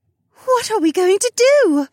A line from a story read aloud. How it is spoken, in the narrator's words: Janel gasped